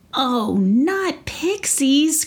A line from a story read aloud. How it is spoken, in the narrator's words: cried Neva